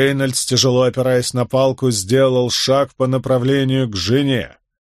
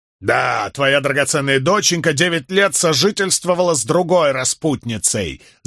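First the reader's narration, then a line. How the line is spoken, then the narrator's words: Yelling. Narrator (Russian): заорал он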